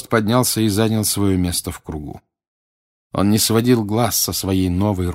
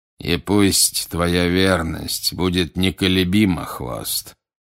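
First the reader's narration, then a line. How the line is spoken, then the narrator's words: Plain. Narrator (Russian): сказал Волан-де-Морт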